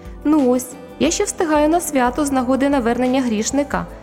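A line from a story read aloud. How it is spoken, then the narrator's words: Cheerful call. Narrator (Ukrainian): весело гукнув ангел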